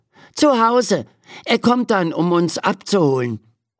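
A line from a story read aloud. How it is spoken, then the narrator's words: Calling out. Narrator (German): ruft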